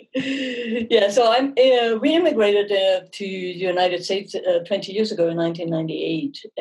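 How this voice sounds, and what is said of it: German accent. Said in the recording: “that's where my accent comes from. It comes from Germany. I'm born and raised in Munich.”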